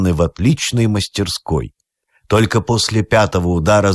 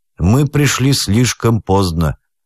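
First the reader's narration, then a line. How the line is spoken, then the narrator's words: Gloomy remark. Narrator (Russian): мрачно заметил адвокат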